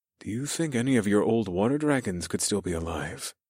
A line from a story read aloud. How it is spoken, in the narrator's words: I whispered so only they could hear